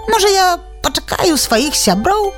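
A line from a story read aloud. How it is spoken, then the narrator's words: Timid request. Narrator (Belarusian): нясмела папрасіла яна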